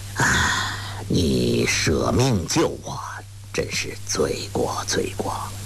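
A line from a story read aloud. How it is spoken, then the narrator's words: Sighing. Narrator (Chinese): 伊登 叹道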